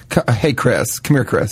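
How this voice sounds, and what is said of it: Put-on Southern twang. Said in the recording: “you say it with a southern twang”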